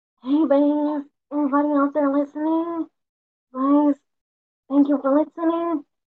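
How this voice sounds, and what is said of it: Miranda Sings character voice impression. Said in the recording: “her Miranda Sings voice ... such a Miranda Sings voice like interpretation ... do the voice”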